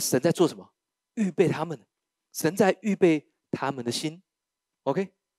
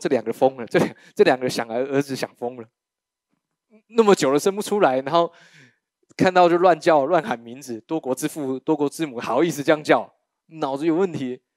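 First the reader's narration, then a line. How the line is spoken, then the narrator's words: Inward mocking snicker. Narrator (Chinese): 邻居心里面暗笑说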